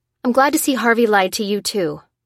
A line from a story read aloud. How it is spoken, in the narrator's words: said Lucy angrily